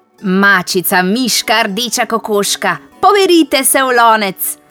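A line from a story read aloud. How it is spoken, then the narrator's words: Shouting. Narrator (Slovenian): je zakričala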